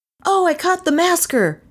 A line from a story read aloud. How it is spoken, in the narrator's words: he cried to them